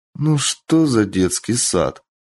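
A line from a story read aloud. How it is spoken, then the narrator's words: Sighing. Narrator (Russian): Мичия вздохнула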